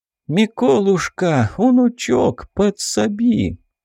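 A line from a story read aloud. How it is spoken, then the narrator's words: Cheerful, tender grandmother. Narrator (Russian): Голос бабули прозвучал весело и ласково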